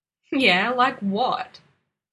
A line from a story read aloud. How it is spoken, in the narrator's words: Dean said and huffed with laughter